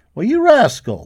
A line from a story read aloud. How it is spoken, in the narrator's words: the cowboy laughed